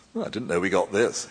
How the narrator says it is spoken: he said

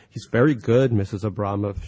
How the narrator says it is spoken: she said

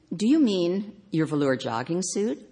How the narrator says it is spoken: asked

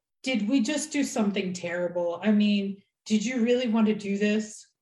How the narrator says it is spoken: said Wynn in a thick voice

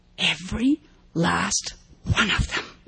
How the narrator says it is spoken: Snapper whispered hoarsely to Mo

